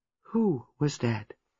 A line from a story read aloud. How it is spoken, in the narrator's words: Miss Marple asked gently